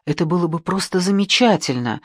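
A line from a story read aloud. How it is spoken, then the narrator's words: Breathed out. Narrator (Russian): выдохнула Джейми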